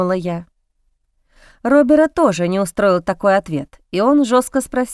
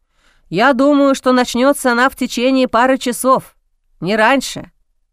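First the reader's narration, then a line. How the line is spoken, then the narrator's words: Plain. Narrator (Russian): ответил мужчина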